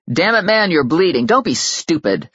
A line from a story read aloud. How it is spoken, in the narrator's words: snapped the stranger